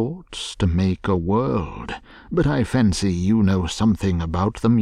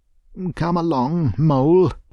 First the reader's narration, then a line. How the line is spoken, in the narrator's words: he said anxiously